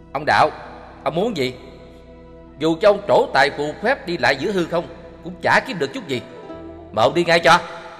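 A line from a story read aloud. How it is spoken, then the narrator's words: Steadied, harsh emphatic voice. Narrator (Vietnamese): Chí Kiệt hết hồn, trấn ngang được ngay và gằn giọng nói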